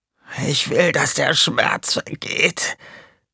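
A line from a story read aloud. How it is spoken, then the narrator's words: Croaking voice. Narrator (German): krächzte er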